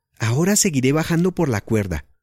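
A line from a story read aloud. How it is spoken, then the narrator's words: Shouted. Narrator (Spanish): le gritó Ana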